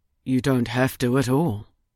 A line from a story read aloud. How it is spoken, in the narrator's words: he said quietly